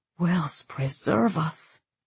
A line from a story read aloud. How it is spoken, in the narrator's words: the monk breathed